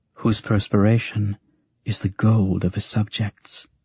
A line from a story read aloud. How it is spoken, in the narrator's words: Jolenta, whose fear ... whispered